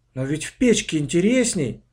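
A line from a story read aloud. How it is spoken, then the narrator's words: Exclamation. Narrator (Russian): воскликнула Аня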